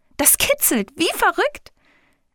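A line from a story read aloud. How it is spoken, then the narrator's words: Delighted laughing and squealing. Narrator (German): Es lacht und quietscht, so vergnügt wie schon lange nicht mehr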